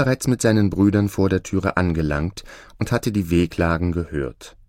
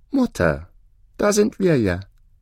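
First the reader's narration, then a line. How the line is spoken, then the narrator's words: Very calm. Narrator (German): sprach ganz ruhig der kleine Däumling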